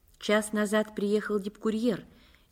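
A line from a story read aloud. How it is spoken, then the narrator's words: Quiet. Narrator (Russian): негромко сообщила Скрипник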